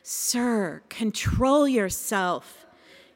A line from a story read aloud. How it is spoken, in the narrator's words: whispered